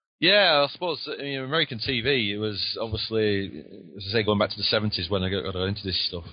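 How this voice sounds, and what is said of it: Lancashire English accent. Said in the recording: “he sounds a little different than my southern sound ... I've got the Lancashire accent”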